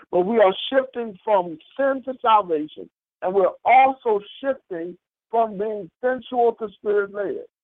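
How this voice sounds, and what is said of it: Country accent. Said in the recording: “my country accent kind of makes it sound like something else”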